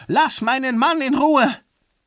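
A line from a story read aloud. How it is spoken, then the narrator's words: Female scream. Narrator (German): Sie schrie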